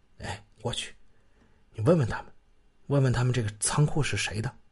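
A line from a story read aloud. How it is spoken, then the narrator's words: Low voice. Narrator (Chinese): 他低声让李卫华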